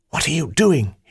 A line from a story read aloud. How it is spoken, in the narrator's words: hissed